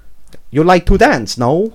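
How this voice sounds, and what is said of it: Put-on Chinese accent. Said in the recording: “Maybe a Chinese accent. ... in that accent.”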